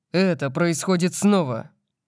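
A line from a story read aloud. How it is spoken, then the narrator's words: Growl. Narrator (Russian): прорычал я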